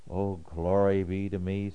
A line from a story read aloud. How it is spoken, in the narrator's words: sighs